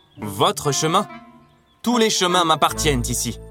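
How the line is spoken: Queen roaring. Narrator (French): rugit la reine

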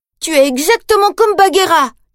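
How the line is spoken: Shouting. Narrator (French): crie-t-il

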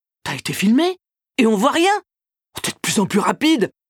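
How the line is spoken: Exclaiming. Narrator (French): s'exclame Bob

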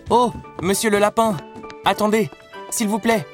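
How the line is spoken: Exclaimed. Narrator (French): s'écria Alice

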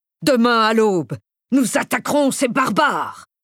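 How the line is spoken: Thundering. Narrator (French): tonna Radcliffe

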